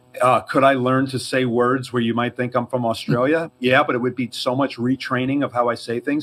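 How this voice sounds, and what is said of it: Slight New York accent. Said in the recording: “I have a bit of a New York accent.”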